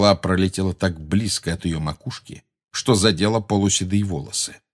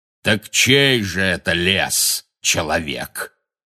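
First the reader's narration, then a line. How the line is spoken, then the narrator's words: Booming. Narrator (Russian): прогремел Бэйн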